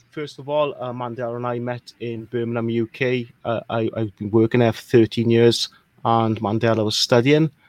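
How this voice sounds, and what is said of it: Welsh accent. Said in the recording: “what part of Ireland are you from? ... that accent is Irish, is it? ... I'm not from Ireland, guys. I'm from a small country called Wales”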